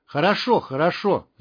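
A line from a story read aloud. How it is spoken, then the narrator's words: Shouting. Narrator (Russian): закричал Валера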